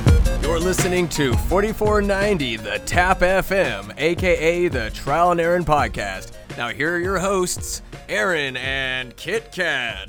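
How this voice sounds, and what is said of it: Radio voiceover announcer voice. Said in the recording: “Thank you, voiceover guy... There's no voiceover guy. It's just me doing a different voice”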